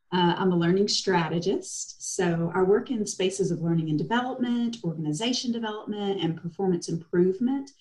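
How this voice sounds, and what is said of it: Eastern Tennessee accent. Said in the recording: “The accent is Eastern Tennessee”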